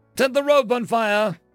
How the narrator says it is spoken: fairy yell from somewhere

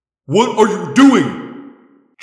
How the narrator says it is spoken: Jake roared

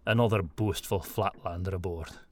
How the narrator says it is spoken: Tomgard muttered

